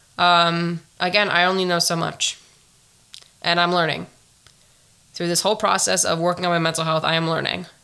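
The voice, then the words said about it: Raspy voice. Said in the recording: “my sexy, raspy voice. It probably won't be here the next time”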